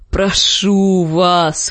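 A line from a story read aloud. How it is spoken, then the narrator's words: Hoarse wheeze. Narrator (Russian): хрипел пес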